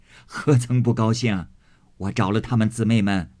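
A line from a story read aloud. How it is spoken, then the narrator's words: Laughing old woman. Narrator (Chinese): 贾母笑道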